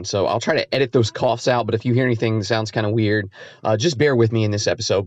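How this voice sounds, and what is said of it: Slightly raspy voice. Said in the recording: “I'm fighting a cold and my voice is a little bit raspy and I keep coughing.”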